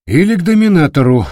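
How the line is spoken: Sighing. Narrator (Russian): вздохнул Спенсер

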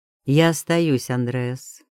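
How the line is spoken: Calm, weighty statement. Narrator (Russian): произнес спокойно, но так, что его слова повисли в морозном воздухе

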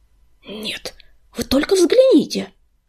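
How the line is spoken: Hissing. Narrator (Russian): прошипел он

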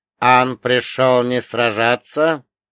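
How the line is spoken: Muffled hiss, dead man. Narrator (Russian): глухо прошипел мертвец

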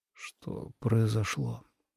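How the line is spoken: Tired mumbling whisper. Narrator (Russian): усталым шепотом промямлил Леннард

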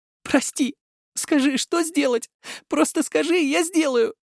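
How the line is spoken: Sobbing. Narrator (Russian): рыдала она

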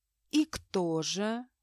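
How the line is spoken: Insinuating, ingratiating. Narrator (Russian): вкрадчиво поинтересовался Джеймс

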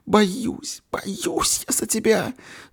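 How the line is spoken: Sobbing woman. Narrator (Russian): Среди рыданий говорила она

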